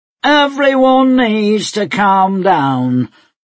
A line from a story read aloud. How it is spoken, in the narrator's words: the sheriff said loudly